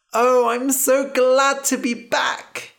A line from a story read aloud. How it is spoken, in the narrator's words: said, laughing